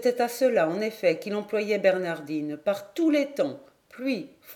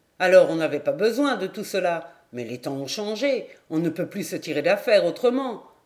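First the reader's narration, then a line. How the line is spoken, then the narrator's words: Old man sneering. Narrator (French): Le vieux ricanait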